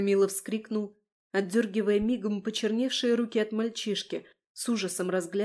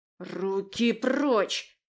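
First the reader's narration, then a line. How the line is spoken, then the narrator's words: Boy's sudden hiss. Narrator (Russian): вдруг зашипел мальчик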